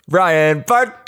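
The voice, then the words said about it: Booming announcer voice. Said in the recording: “I gave myself the announcer voice.”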